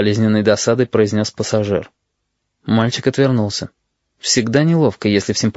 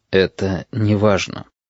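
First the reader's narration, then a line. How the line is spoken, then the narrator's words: Quiet. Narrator (Russian): тихо сказал пассажир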